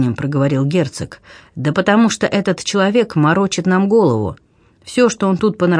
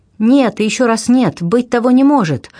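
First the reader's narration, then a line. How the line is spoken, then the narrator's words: Sudden exclamation. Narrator (Russian): вдруг воскликнула герцогиня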